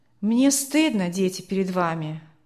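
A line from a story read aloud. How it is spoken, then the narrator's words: Father sighing. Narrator (Russian): вздохнул отец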